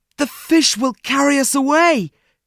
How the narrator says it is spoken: cried Fritz

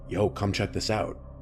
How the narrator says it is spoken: said in a volume slightly above a whisper

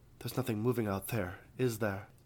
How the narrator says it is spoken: Isra sighed

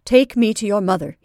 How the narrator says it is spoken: he said firmly

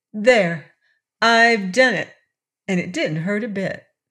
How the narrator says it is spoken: Betsy exclaimed

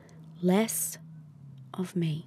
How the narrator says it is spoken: you whisper

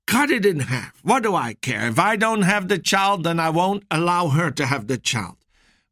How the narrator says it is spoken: The one woman, she cried out and she said

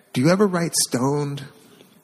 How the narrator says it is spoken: One kid was even so bold as to quietly ask

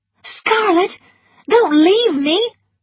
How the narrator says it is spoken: cried Melanie

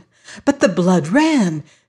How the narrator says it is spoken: she exclaimed

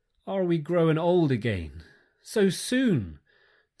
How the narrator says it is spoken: they cried dolefully

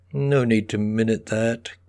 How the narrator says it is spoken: Bernard, the chairman, whispered to Ms

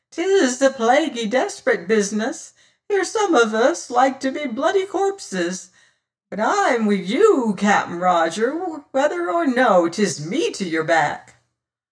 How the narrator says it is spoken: piped

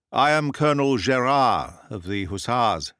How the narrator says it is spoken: said I

